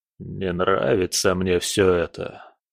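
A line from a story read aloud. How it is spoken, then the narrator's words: Muttered. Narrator (Russian): пробормотал он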